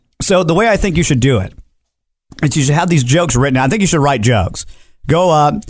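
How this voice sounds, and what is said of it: Usual voice. Nothing is said of it.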